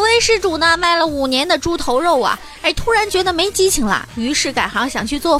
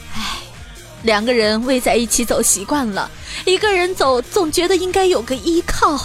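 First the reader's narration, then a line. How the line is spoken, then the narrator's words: Weary sighing voice. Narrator (Chinese): 奶爸看起来有些憔悴啊，叹了口气说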